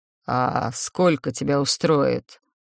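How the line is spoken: Slight growl. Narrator (Russian): спросил и с легким рычанием добавил

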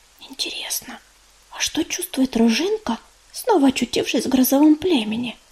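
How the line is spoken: Whisper into ear. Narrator (Russian): шепнула медуница, наклоняясь к самому уху подруги

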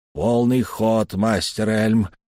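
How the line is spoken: Hoarse, strained. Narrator (Russian): хрипло выдавил из себя Сканди

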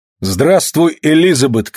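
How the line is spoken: Shouted greeting. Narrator (Russian): крикнул Питер

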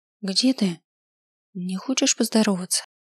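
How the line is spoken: Forced calm, hurt undertone. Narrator (Russian): Я старалась говорить спокойно, но в голосе, вопреки всему, зазвенели нотки обиды

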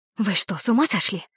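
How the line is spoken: Hissed. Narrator (Russian): Зашипела она на нас

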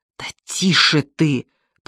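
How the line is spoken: Hissed reply. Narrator (Russian): прошипел я в ответ

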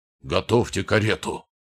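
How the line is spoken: Hoarse roaring shout. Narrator (Russian): рычал он, срывая голос

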